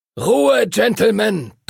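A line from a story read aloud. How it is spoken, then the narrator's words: Thundering. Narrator (German): donnerte Master Duncan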